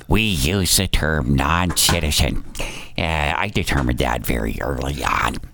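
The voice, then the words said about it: Imitates another person's voice. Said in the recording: “good Mayorkas impersonation”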